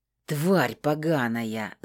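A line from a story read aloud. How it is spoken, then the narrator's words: Growling. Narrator (Russian): зарычал он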